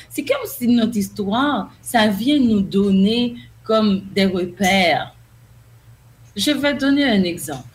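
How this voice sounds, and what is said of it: Haitian French accent. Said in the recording (French): “ma façon de parler, mon accent ... je suis une haïtienne ... on ne va jamais avoir le même accent qu'une personne qui est monolingue”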